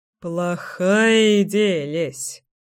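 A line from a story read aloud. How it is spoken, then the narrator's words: Grunting chuckle. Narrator (Russian): хмыкнул Кирилл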